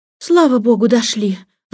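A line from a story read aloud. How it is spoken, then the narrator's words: Exhausted exclamation. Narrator (Russian): воскликнула Джейн, покачиваясь от усталости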